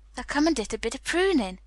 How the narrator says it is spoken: cried Dickon

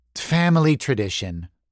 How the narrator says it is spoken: Mercedes sighed

